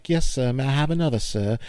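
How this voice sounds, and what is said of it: Cockney-accented timid child voice. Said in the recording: “Cockneyed accent, stuttering little boy, girl, perhaps, kind of like an Oliver Twist character”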